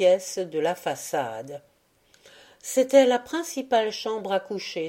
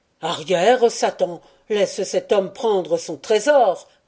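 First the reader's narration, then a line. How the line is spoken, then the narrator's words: Shouted. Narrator (French): cria-t-il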